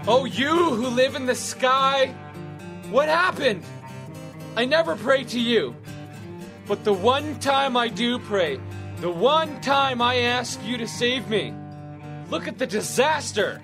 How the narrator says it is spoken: He shouted

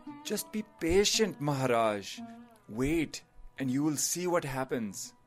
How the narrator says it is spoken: The advisor sighed and said

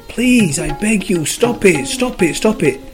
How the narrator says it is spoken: Every time he squashed the clay screamed

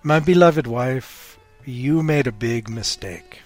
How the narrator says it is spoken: he said

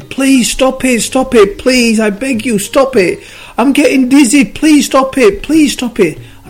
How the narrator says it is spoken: the clay started screaming again

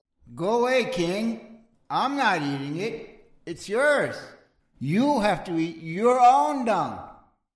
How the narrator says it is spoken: From inside, the hermit yelled

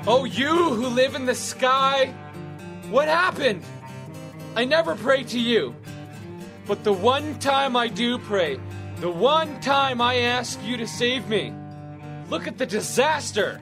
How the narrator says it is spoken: He shouted

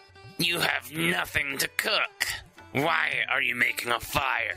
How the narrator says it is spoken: the troll snarled

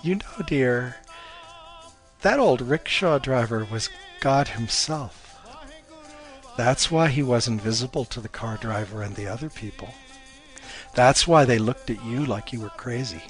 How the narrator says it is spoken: Her mom chuckled and said

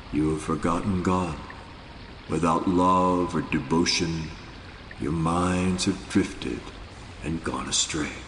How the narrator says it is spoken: With chilling seriousness, Nanak said in a quietly penetrating voice

